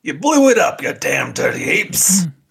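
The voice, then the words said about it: Imitates another person's voice. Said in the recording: “Okay, pretty good. Not as good as a skirt up. You're more of a late stage Charlton Heston impersonator.”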